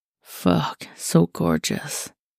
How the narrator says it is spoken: he murmured

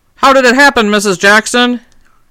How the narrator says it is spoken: called out

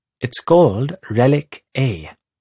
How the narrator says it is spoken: Pipra says

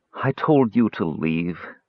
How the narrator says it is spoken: Teeka moaned

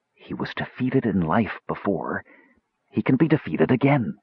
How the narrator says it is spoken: Acting as though he were trying to speak with her privately, he whispered

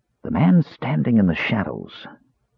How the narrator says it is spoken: Raistlin whispered

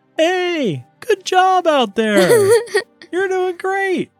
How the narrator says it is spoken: yells

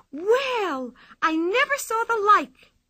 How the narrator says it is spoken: she cried

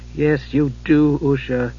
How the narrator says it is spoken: he said gently over and over

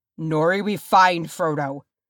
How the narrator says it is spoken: Thorin snapped

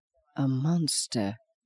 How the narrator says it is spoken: said again under his breath

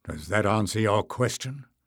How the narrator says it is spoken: asked Bowder dryly

